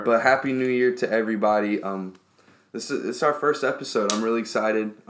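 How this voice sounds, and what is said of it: Hoarse, sick-sounding voice. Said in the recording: “my voice is a little messed up ... my voice is horrible right now. Sick. And it's gotten worse today.”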